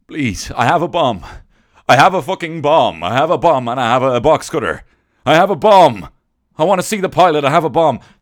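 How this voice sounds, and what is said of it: Impression of a terrorist hijacker. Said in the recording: “that was my last impression of a 9/11 terror”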